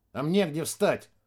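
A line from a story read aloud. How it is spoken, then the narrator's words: Grumbled mutter. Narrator (Russian): буркнул ботаник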